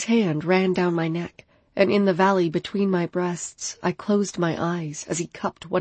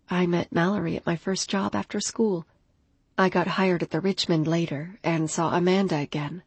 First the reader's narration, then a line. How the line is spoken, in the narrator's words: I murmured